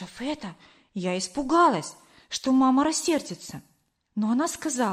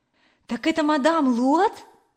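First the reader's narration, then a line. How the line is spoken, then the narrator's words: Exclaiming. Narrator (Russian): воскликнула мама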